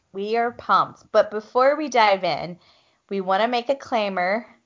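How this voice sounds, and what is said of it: Minnesota accent. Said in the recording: “Why do I have a Minnesota accent?”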